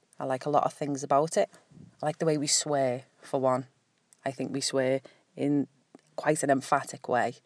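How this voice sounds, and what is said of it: Scouse accent. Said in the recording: “Scouse accent ... I quite like my accent”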